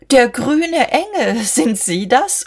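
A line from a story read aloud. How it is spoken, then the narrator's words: Laughing. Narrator (German): sie lachte ihm ins Gesicht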